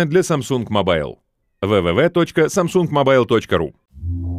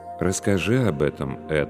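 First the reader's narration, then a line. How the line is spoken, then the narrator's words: Calm. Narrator (Russian): спокойно ответствовал священник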